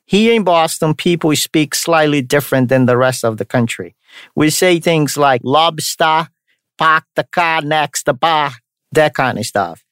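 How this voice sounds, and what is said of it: Mixed Brazilian and Boston accent. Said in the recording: “the accent, which I'm sure you have noticed. So it's called a Brastonian accent. It's a mix of Brazilian accent and a Bostonian accent.”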